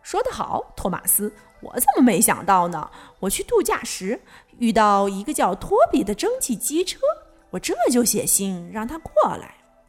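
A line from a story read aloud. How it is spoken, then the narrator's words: Bursting laughter. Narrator (Chinese): 胖总管猛地大笑起来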